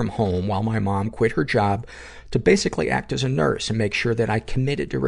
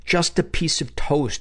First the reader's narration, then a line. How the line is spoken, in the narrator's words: she begged